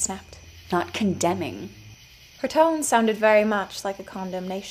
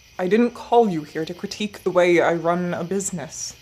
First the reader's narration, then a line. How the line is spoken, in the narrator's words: the man growled